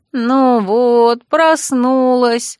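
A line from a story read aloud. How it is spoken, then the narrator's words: Upset drawl, female dragon. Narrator (Russian): расстроенно протянула драконица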